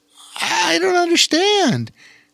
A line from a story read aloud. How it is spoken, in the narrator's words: she exclaimed